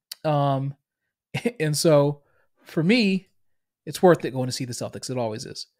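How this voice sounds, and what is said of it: Boston accent. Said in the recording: “I'm from Boston, if you can't hear it in my accent.”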